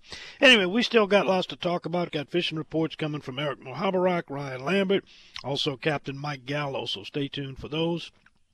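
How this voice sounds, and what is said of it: Hoarse, strained laryngitic voice. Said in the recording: “if I can make it with my voice and you can put up with listening to it ... Got a relapse on my laryngitis.”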